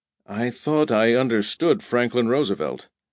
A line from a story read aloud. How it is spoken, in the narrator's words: Pug Henry muttered